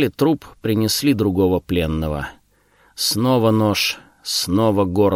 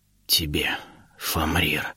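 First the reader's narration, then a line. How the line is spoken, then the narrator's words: Wounded man's faint whisper. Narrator (Russian): донесся шепот, сорвавшийся с изуродованных губ раненого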